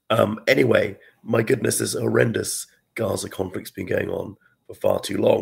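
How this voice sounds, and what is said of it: Hoarse voice with a cold. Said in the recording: “I've got a bit of a cold, my sore throat, explaining the unusual sound of my voice today.”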